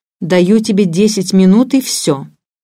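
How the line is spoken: Stern speech. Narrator (Russian): строго говоришь

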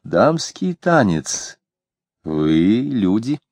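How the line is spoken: Calm, hiding fear. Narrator (Russian): Она сказала это совершенно спокойно, хотя у нее от страха сжималось сердце

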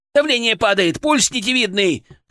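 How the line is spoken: Shout. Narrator (Russian): крикнул Прилипало

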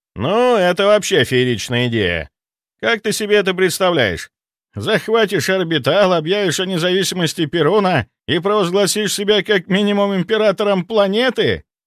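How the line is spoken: Laughing. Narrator (Russian): рассмеялся Антон

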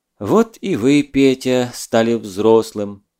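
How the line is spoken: Sad sighing trainer. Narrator (Russian): грустно вздохнув, сказал дрессировщик

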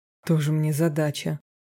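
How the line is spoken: Scoffing grunt. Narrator (Russian): хмыкнул Роберт

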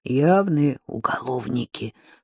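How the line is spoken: Whisper. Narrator (Russian): прошептала Надежда

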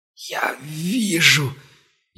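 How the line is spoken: Barely audible wheeze. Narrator (Russian): едва слышно просипел он

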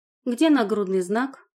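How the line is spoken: Angry. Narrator (Russian): зло проговорила я

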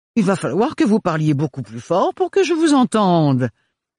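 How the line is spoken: Sneering into a horn. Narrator (French): ricana Archibald dans le cornet

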